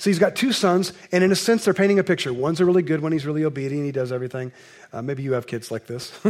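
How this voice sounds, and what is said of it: Usual voice. Nothing is said of it.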